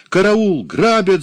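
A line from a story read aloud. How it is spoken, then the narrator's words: Woman screaming. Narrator (Russian): закричала она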